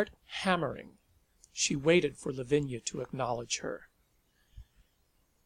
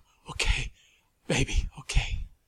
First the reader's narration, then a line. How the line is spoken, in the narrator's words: Breathing very hard, she gasped